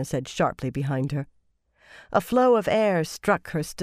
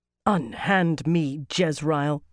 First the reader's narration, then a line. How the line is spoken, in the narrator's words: Katarina snarled